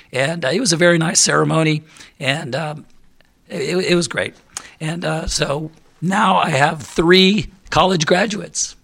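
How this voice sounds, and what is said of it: Hoarse, failing voice. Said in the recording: “hopefully I can get through it without losing my voice completely”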